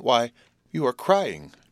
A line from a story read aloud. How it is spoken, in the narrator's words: I exclaimed in amazement